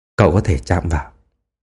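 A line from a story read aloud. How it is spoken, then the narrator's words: Intimate whisper. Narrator (Vietnamese): nhỏ giọng thì thầm bên tai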